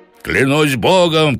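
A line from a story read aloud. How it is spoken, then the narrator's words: Shout. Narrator (Russian): крикнул он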